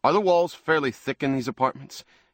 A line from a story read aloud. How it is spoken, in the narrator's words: he asked Ruth sharply